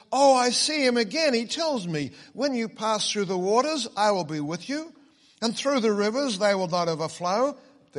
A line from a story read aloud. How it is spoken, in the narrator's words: Christian exclaimed with a loud voice